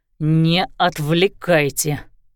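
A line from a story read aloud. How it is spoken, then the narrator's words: Irritated. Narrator (Russian): раздраженно сказал Лещинский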